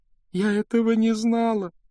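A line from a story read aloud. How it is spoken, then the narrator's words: Sobbing. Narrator (Russian): рыдала Джинни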